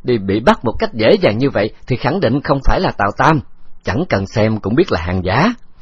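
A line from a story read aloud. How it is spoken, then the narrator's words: Bursting into laughter. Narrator (Vietnamese): Nhĩ Văn Hoán cười phá lên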